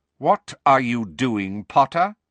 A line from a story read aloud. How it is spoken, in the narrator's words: said Snape as coldly as ever